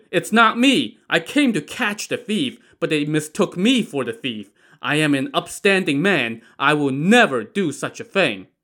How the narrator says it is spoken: Wu Song shouted

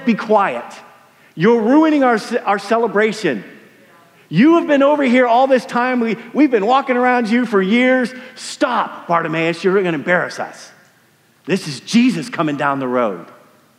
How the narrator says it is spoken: the crowd says

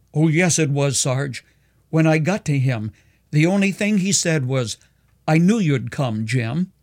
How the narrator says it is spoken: Gasping for breath, the soldier cried

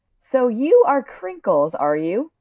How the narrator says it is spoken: cried the Admiral

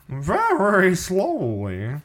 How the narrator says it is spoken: making believe he was Harold, would answer in a crazy voice

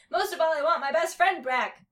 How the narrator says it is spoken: cried Chucky

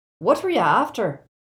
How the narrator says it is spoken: asked Seamus eagerly

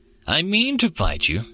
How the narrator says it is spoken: Threedak replied calmly

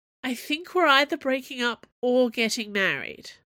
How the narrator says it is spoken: Aramis moaned

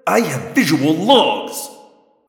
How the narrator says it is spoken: Alloran snapped

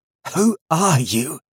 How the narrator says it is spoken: he choked out

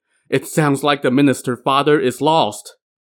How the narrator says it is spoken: heard about this setback, he started to wail and moaned

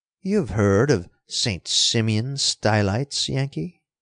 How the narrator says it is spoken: purred Von Kettler

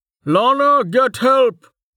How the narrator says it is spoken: a man's voice shouted

